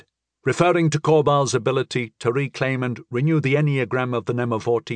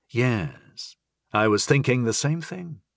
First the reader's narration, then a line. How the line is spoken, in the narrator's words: I sighed